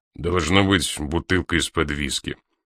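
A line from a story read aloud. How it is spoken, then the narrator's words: Grumbled. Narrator (Russian): проворчал Мастерс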